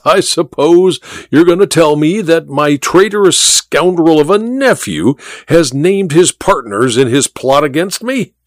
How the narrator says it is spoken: said the Duke with a harsh laugh

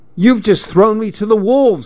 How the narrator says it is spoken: I shouted

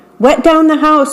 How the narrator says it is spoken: yelled

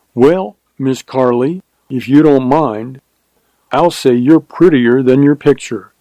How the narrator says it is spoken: said Hutter

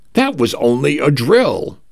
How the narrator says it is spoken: I announced cheerfully to the empty hallways

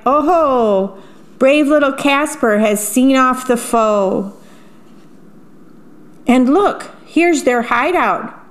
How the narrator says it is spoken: Jack hollered with joy

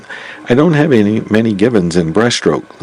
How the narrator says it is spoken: Lou says

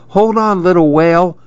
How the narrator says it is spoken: Maribel pleaded

